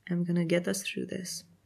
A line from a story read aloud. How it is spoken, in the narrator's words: Shane says, his voice soft